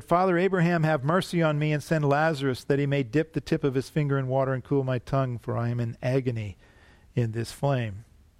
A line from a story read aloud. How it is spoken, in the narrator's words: cried out and said